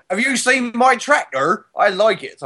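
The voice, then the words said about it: Put-on Devon accent. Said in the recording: “That's apparently a Devon accent... I like doing accents... And you do them well.”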